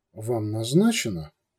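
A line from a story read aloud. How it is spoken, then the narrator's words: Grumbled. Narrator (Russian): Гугу поморщился и буркнул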